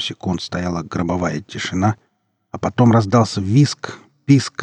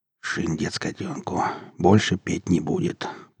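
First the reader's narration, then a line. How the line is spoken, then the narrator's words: Muttered. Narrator (Russian): пробормотал сапог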